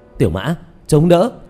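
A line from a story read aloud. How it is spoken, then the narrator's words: Loud shout. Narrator (Vietnamese): Diệp Thiếu Dương hét lớn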